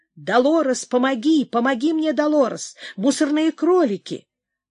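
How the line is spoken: Shouting again. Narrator (Russian): опять закричала

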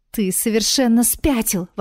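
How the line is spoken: Exclaiming. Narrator (Russian): воскликнула принцесса

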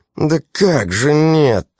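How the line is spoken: Hurt or angry tone. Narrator (Russian): то ли обиженно, то ли даже зло

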